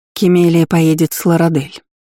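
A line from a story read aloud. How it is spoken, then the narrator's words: Soft, gentle. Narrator (Russian): мягко сообщила Дисси королю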